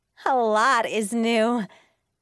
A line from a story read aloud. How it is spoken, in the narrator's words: I said with a laugh